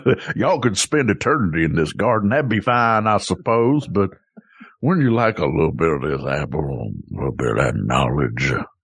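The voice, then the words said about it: Put-on Southern accent. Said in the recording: “a snake with a Southern accent”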